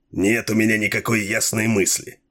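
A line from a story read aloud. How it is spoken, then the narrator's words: Captain, angry and curt. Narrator (Russian): сердито отрезал капитан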